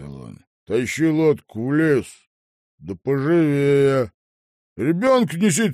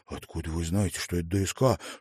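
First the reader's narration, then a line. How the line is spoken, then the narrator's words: Whispered question. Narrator (Russian): шепотом спросил Малькольм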